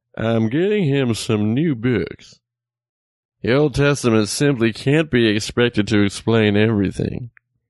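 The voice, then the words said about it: Alan Thicke impression. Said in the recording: “I will read it to you in Alan Thicke's voice. ... I don't know if it was a very good Alan Thicke impression.”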